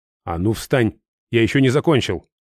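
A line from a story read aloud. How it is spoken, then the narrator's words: Barking to hide awkwardness. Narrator (Russian): рявкнул, чтобы хоть как-то скрыть неловкость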